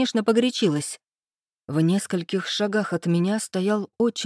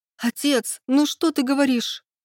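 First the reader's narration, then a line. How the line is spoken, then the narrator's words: Sobbing. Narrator (Russian): всхлипнула Низора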